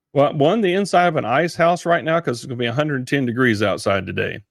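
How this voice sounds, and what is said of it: Texan accent. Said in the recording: “you got that cool accent because you're a Texan”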